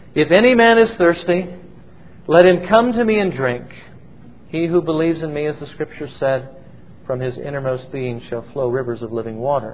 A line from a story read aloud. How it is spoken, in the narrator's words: Jesus cried out